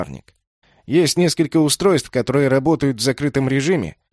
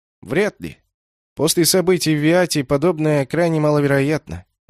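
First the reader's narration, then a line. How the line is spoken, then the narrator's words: Uncertain. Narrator (Russian): неуверенно сказал Дик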